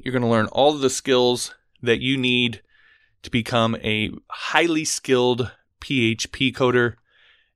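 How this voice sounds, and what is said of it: Sick, sniffly congested voice. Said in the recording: “I'm a little under the weather. I'm sure my voice sounds a little crazy and I've been a little sniffly”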